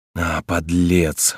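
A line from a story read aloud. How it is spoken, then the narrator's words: Whisper. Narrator (Russian): шептал Корнелий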